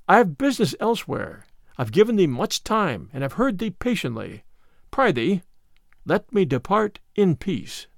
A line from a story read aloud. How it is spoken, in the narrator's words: said the other gently